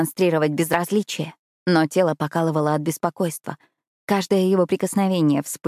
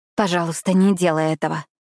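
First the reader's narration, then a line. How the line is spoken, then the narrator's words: Breathed out. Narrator (Russian): выдохнула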